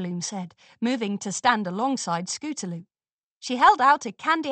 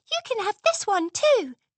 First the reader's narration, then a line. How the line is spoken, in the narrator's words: Sweetie Belle squeaked, trying not to tremble